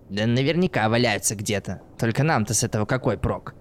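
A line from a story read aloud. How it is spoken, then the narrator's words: Puzzled mutter. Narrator (Russian): недоуменно пробормотал Борис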